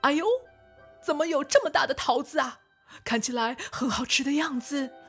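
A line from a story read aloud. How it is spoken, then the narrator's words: Old man shouting in surprise. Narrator (Chinese): 老公公大叫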